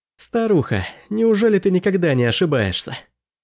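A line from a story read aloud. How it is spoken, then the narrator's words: Chuckling. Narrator (Russian): Я хохотнул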